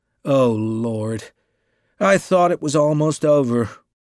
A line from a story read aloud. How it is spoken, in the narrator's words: groaned the novelist